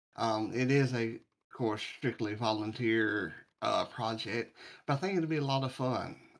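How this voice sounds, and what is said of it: Speaks with a noticeable accent. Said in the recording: “with that accent”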